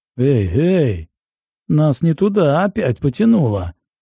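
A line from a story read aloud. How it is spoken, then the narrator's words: Laughing. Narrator (Russian): рассмеялся герцог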